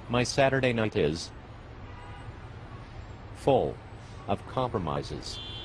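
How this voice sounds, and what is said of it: Poor William Shatner impression. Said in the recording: “Your Shatner impression sucks.”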